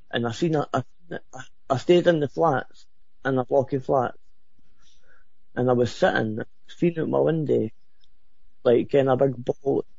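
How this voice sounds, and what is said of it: Very thick accent. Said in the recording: “you have an accent that I could cut with a knife”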